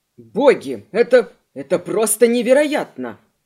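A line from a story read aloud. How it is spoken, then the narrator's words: Exclamation. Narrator (Russian): воскликнул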